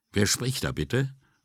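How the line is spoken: Noticeably cooler voice. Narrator (German): fragte sie mit deutlich abgekühlter Stimme

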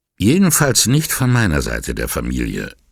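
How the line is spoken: A bit too curt. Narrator (German): sagte Signora Fontana ein wenig zu schroff

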